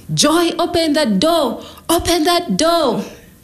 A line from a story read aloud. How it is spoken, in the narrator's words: So his brothers joined in, screaming